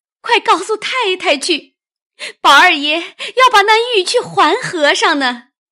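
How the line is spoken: Crying. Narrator (Chinese): 袭人哭道

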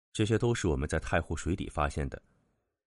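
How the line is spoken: Low, deep reply. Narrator (Chinese): 陈三只得沉声回答道

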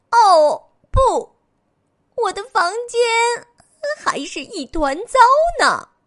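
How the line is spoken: Miserable scream. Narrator (Chinese): 他惨叫一声

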